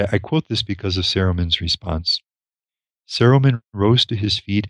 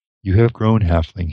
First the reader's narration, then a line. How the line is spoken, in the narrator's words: he said